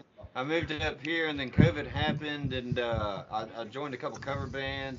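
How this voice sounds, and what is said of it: Southern US accent. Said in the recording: “I feel like you're from like fucking Amarillo, Texas, with that accent.”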